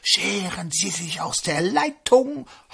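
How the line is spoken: Breathy ghostly whisper. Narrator (German): Das Gespenst haucht in den Draht

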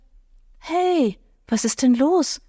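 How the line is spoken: Gentle, soft question. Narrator (German): fragte Lynn mit sanfter Stimme

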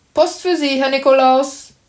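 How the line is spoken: Called out. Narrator (German): rief er

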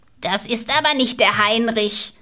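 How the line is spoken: Old woman calling from window. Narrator (German): rief die alte Frau aus dem Fenster

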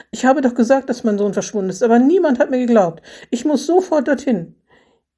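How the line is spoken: Exclaiming. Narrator (German): rief Renate Schiffner aus

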